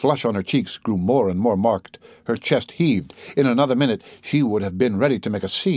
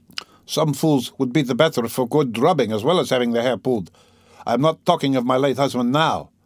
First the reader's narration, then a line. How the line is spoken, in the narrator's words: Katerina Ivanovna snapped at him